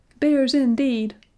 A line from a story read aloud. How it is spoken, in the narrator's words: cried a shrill voice